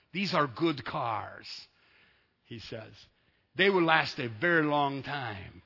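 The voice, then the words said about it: Put-on Arabic accent. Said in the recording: “I'm trying to do my Arabic impression here, Zach, and I don't know how good I'm doing”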